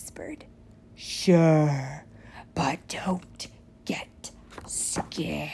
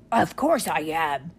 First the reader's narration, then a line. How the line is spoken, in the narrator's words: she snapped